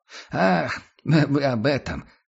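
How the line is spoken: Man laughing. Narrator (Russian): засмеялся человек

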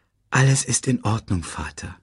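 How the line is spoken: Gentle. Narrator (German): sagte Simba sanft

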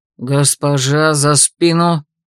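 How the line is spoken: Guard's menacing growl. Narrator (Russian): Грозно прорычал кто-то из стражников

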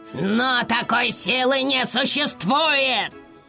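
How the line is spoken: Astonished yell. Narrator (Russian): завопил Даркар, совершенно пораженный увиденным

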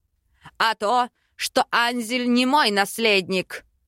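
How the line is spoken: Barking. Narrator (Russian): Рявкнул Аринель

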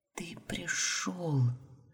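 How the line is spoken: Disbelieving whisper. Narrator (Russian): шептала все еще до конца не веря

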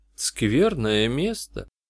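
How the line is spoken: Quiet, spellbound remark. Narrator (Russian): тихо заметила Джианна, зачарованно глядя в туннель

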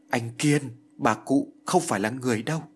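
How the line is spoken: Broken frightened stammer. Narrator (Vietnamese): Kiều Như lắp bắp, miệng nói như ngắt quãng, tay run rẩy chỉ nói

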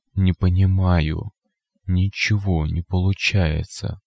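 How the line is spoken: Whispered. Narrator (Russian): прошептал безгубый рот

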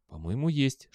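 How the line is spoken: Whispered reply. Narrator (Russian): шепнул в ответ Белли

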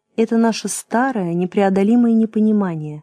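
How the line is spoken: Gentle, knowing reply. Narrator (Russian): мягко ответил Вовочка, которому все уже было ясно

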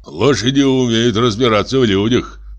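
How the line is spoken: Gloomy pronouncement. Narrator (Russian): мрачно изрек второй лошадник

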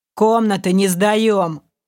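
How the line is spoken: Grumbling mutter. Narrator (Russian): пробурчал гоблин

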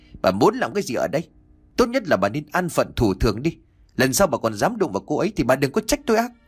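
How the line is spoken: Angry, tearful shout. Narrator (Vietnamese): ông Chánh đôi mắt đỏ hoe long lên giận dữ mà quát

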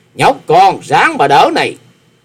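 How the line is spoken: Snorting loud shout. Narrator (Vietnamese): Điền Cương Dạ Xoa hừ mũi một tiếng, quát to

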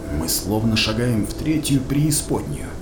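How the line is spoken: Whisper. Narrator (Russian): прошептал Крест

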